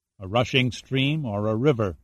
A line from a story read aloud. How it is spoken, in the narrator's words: said softly, recalling the old bartender's words